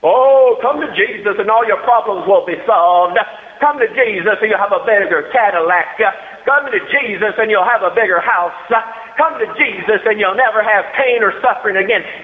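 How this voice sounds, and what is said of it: TV preacher impression. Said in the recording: “my preacher impersonation on TV. I thought it was pretty good.”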